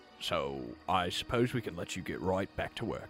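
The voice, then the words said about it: Sudden British Cockney accent. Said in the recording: “Why did I get a British accent all of a sudden? ... All of a sudden, I'm Cockney”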